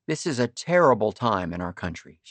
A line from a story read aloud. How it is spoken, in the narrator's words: she said